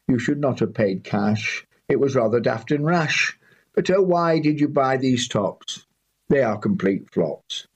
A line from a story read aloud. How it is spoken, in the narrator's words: she said with a sigh